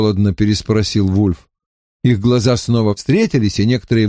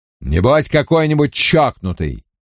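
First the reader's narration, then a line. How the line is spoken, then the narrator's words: Irritated curt remark. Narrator (Russian): раздраженно бросил инспектор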